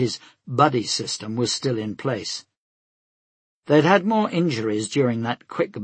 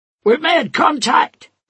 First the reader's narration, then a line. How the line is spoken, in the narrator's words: she shouted